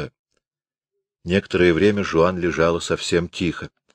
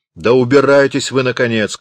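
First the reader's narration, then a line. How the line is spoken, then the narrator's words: Shouted. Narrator (Russian): крикнул Равик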